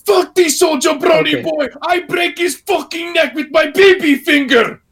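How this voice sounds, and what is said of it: Yelling Iron Sheik impression. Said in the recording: “my terrible Iron Sheik impersonation... It's essentially just yelling... That's not horrible... It's pretty good.”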